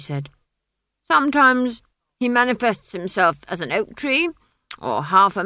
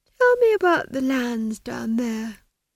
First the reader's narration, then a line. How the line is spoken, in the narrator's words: she said lazily